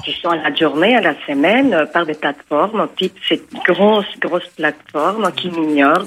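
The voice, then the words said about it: Light Colombian Spanish accent. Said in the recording (French): “ce petit accent américain ... C'est un accent colombien, je crois que c'est un accent américain. ... Ça, c'est l'accent colombien”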